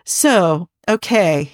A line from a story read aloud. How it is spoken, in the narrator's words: he said